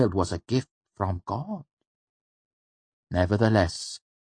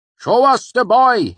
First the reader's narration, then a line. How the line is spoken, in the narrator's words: he yelled